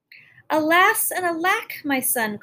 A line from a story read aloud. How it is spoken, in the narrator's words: cried the queen